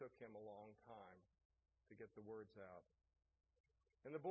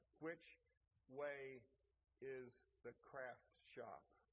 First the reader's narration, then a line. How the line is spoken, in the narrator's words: he very slowly asked